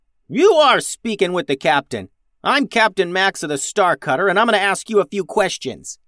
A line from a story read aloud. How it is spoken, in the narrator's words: yelled Max